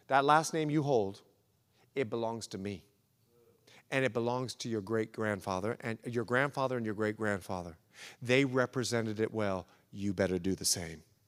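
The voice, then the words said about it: Put-on Bahamian accent. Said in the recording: “he's Bahamian, so I'll do a little Bahamian accent, sorry if it came out.”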